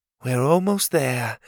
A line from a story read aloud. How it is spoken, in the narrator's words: she sighed